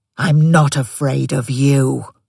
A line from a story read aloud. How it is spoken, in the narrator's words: the dog snarled, teeth bared